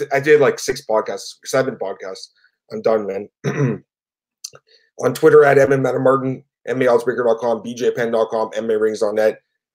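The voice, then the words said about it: Strained, fading tired voice. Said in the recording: “my voice is going down”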